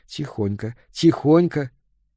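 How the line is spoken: Whisper. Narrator (Russian): прошептал ей

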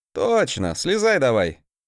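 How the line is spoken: Snort. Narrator (Russian): фыркнул я

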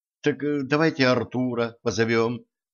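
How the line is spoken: Timid reminder. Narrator (Russian): робко напомнила Женька

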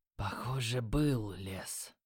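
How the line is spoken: Quiet. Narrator (Russian): тихо сказал Юки

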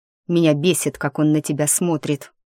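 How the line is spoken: Grumbling, less angry. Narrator (Russian): проворчал Андрей, уже не так сердито

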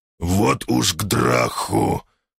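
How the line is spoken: Growled. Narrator (Russian): прорычал я

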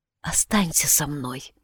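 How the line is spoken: Whispered reply. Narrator (Russian): шепнула Анна в ответ

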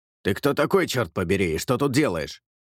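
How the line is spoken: Sharp question. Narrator (Russian): резко спросил

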